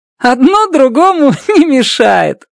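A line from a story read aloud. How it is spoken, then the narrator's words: Loud laughter. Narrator (Russian): громко расхохоталась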